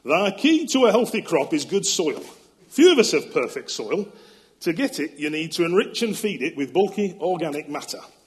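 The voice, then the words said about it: Alan Titchmarsh accent impression. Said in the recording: “Alan Titchmarsh. Now, I'll do this quote in his accent”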